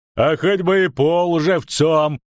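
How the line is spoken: Loud laughing speech. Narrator (Russian): захохотал Брик

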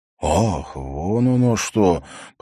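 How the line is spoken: Drawling. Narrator (Russian): протянул он

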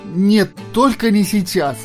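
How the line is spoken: Pleading. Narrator (Russian): взмолился Джордж

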